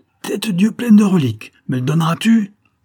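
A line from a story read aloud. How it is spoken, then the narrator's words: Enraged roar. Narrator (French): s'écria-t-il en rugissant de rage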